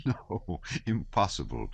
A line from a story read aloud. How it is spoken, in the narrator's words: said Prince Andrew, laughing